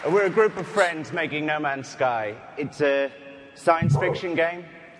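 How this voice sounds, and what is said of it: Speaker with a noticeable accent. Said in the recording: “You just like his accent.”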